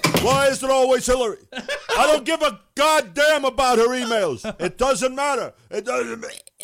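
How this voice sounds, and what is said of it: Bernie Sanders impression. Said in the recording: “Bernie.”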